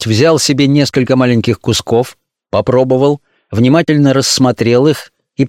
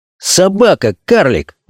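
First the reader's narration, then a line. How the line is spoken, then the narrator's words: Exclamation. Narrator (Russian): воскликнул он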